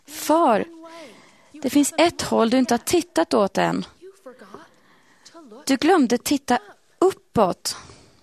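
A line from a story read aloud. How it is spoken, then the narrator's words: Boy calling out. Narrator (Swedish): Pojken ropade då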